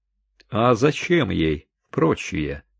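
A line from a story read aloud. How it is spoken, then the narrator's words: Mocking question. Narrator (Russian): насмешливо спросила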